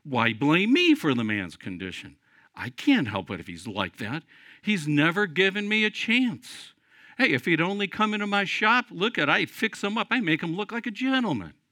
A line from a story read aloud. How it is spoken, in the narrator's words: Indignantly answered